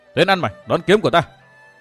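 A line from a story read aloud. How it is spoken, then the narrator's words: Shout. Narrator (Vietnamese): hắn quát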